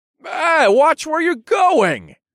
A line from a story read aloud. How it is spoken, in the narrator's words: I shouted